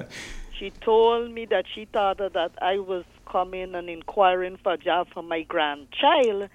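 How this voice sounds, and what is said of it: Guyanese accent. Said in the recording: “with a Guyanese accent”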